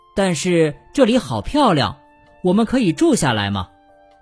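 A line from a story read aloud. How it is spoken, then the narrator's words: Plain. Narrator (Chinese): 岩石山说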